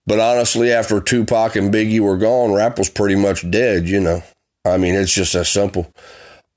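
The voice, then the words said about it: Country accent. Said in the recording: “I got a country accent.”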